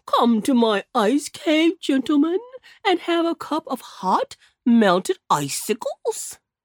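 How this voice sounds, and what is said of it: Jolly, booming polar bear voice. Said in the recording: “"Ho, ho!" roared Mr. Whitewash in his jolly voice.”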